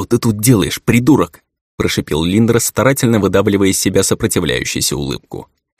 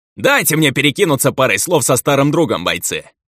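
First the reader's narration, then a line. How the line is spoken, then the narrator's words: Barking shout. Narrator (Russian): гаркнул ржавый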